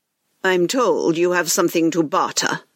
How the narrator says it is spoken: he coldly replied

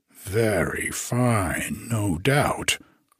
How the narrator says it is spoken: grumbled the parrot

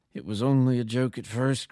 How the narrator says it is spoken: groaned the visitor

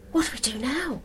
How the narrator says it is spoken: said Donna in a slightly excited whisper

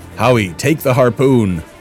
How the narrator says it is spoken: Travis shouted

